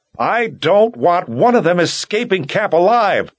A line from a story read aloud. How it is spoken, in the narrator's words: yelled